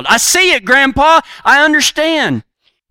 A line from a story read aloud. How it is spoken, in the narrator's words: the young boy yelled